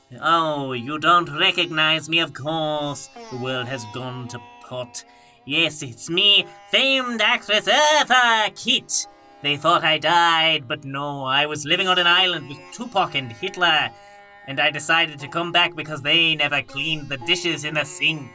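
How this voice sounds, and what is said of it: Diva character voice with Irish-Scottish tinge. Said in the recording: “was that an Irish or a Scottish accent there that came in a little bit?”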